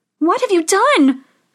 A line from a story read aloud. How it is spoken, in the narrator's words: cried Snow White